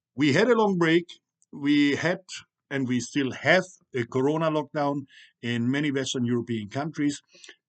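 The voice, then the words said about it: Non-native English accent. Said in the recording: “I'm not really English speaking. You hear my accent.”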